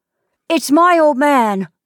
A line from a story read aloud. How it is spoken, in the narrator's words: cried Titee joyfully